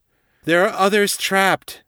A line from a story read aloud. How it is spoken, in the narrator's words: Allura shouted over her shoulder